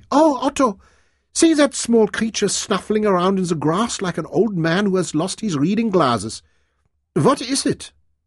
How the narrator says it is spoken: called out gaily

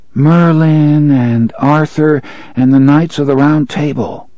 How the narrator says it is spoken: Jake said dreamily

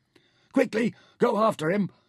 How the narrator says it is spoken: Nefer shouted

